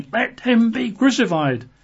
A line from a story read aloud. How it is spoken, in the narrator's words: they cried out all the more, saying